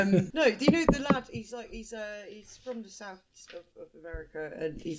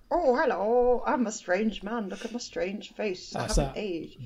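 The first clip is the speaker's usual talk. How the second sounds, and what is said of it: Put-on southern American accent. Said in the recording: “Brilliant South American accent”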